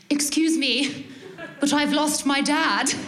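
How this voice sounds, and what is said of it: Very posh British accent. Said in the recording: “probably in like poshest British accent, more posh than I've ever used in my life”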